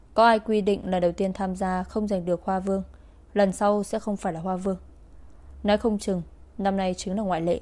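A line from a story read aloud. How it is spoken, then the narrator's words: Cold. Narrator (Vietnamese): Cơ Kình Thiên lạnh lùng lên tiếng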